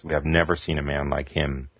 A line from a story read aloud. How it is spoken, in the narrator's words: they would mutter to themselves